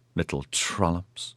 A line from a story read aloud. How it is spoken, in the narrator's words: Cansine muttered